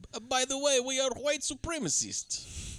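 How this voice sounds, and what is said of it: Solid put-on Ukrainian accent. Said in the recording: “Good impression. ... That was a solid Ukrainian accent”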